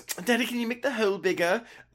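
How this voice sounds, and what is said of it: Attempted Australian accent. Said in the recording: “That was my attempt at an Australian accent.”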